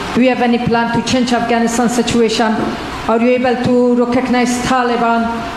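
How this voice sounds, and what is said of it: Strong accent, hard to understand. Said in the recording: “I have a little hard time understanding you. ... it's a beautiful voice and a beautiful accent. The only problem is I can't understand a word you're saying.”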